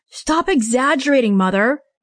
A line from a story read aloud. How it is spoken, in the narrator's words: Mitchell boomed